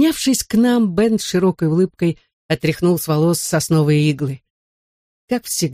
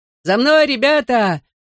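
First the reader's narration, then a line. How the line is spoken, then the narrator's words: Shout. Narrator (Russian): крикнул нам Дэви Рэй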